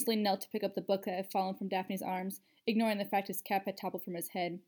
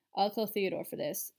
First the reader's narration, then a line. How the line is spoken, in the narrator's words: mumbled